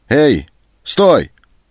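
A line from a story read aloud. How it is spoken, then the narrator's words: Shouted. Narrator (Russian): крикнул Антон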